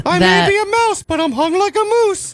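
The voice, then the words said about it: Mickey Mouse cartoon voice. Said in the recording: “my second Mickey Mouse impersonation ... I'm really excited to hear the third one.”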